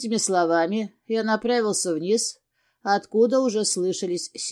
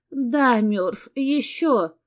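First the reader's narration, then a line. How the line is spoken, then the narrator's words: Moaning, breaking into whimper. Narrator (Russian): простонала она, срываясь на жалобный хнык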